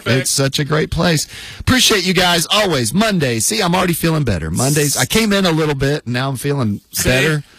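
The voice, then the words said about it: Raspy voice. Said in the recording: “We just got to get that raspy voice taken care of.”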